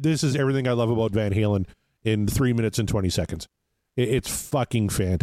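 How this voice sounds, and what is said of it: Usual voice. Nothing is said of it.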